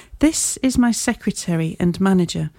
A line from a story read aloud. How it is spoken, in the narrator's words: said the Colonel